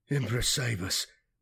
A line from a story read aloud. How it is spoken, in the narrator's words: muttered Nipper worriedly, his nerves frayed by the 3 long days of combat